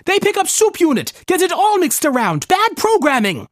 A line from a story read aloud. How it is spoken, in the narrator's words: the man yelled, his voice grating across Kallikak's ears